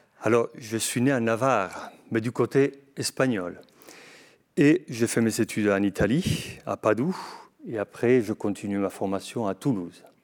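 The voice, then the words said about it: Slight Spanish accent in French. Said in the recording (French): “vous avez un léger accent”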